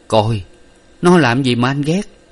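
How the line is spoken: Laughing. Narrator (Vietnamese): Hải bật cười

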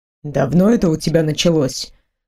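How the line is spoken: Grim question. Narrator (Russian): мрачно спросил Бейл

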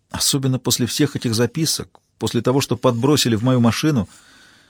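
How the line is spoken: Quiet speech. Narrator (Russian): тихо проговорила Джозефина

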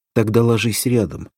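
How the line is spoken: Calm speech. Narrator (Russian): спокойно сказала Валентина

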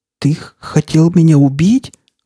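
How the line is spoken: Hoarse whisper. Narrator (Russian): хриплым шепотом спросила она

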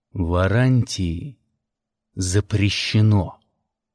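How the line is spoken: Crisp, clipped. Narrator (Russian): отчеканил я

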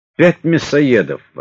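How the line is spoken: Exclaimed. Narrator (Russian): воскликнул Макаров

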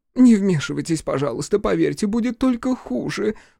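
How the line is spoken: Sobbing. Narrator (Russian): всхлипнула

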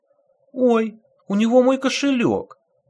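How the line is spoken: Exclaiming woman. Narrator (Russian): воскликнула какая-то женщина

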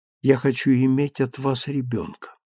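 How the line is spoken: Barely audible speech. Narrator (Russian): еле слышно сказала она

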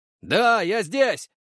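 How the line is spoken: Yelling at full strength. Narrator (Russian): заорал, что было мочи

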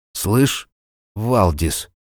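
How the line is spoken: Halting speech. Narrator (Russian): запинаясь, выговорил он

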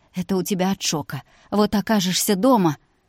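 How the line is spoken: Loud guffaw. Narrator (Russian): Кристина перестала сдерживаться и заржала в голос

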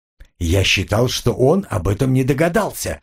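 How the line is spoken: Even, level voice. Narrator (Russian): произнес Джек ровным голосом

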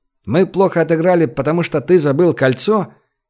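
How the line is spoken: Snide, mocking question. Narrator (Russian): ехидно поинтересовался Любимов

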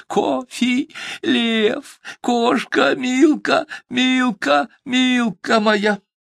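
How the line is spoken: Shouting through tears. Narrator (Russian): Полились слезы, и сквозь слезы кричал

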